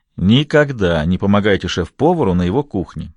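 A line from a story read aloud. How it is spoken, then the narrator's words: Chuckling. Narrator (Russian): сказал Пьер, хохотнув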